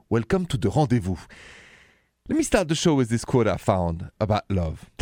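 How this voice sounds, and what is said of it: French accent in English. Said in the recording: “the accent is French”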